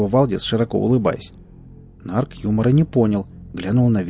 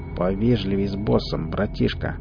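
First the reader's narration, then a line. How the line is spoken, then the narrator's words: Through gritted teeth. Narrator (Russian): процедил Нарк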